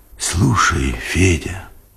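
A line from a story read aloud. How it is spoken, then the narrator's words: Whisper. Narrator (Russian): шепотом сказал он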